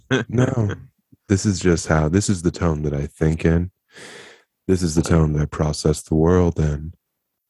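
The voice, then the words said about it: Slow, sedated-sounding author voice. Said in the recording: “Did you do a bunch of Xanax? What are you doing? ... You're doing your author voice.”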